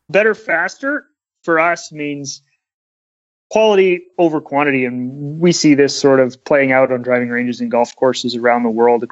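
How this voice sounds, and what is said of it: Canadian accent, Kermit-like voice. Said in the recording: “with the Canadian accent... He also sounds like Kermit the Frog, the Canadian Kermit the Frog.”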